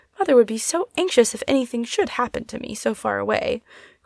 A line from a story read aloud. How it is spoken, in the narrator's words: cried Polly, much distressed